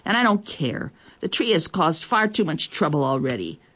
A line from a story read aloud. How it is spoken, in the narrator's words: she said crossly